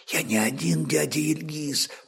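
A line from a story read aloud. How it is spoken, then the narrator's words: Interrupting. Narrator (Russian): прервал невнятный шепот старика молец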